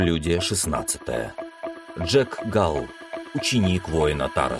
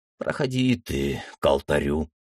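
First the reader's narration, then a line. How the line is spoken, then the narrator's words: Mentor's heavy sigh. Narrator (Russian): тяжело вздохнул наставник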